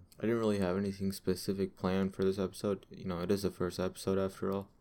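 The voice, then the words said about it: Tired, monotone, bored-sounding voice. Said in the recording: “I sound a little bit monotone ... I'm still a little bit tired ... that's probably why I sound kind of bored”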